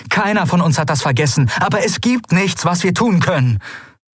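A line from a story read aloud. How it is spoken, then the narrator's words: Stern call. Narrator (German): rief Endriel streng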